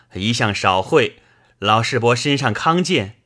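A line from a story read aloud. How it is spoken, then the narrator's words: Two voices laughing. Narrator (Chinese): 宝玉、薛蟠都笑道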